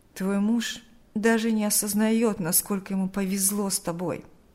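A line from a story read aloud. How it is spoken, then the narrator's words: Sighing. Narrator (Russian): вздохнул Берни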